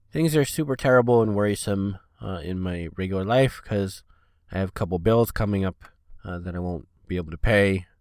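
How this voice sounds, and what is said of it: Congested, stuffy voice with no low range. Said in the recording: “you might be able to tell I'm super stuffed up and congested, and my throat is just bleh. I have like no lower registry at all”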